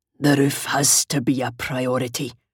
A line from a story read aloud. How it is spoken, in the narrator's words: Fergus Mackenzie growled